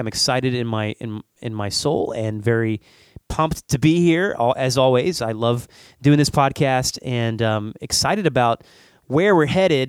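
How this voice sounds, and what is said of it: Sick-sounding voice. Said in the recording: “you probably can tell I have a cold ... I can tell you have a cold. Are you sick? ... I'm fighting a little bit of a cold here today”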